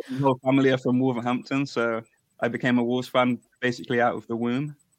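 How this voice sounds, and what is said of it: English Coventry accent. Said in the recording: “I'm originally from Coventry. ... hence the accent.”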